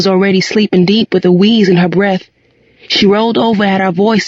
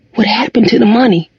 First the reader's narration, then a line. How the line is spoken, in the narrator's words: Mama's voice whispered across the bed